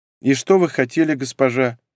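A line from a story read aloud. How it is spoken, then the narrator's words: Sad. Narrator (Russian): произнесла грустно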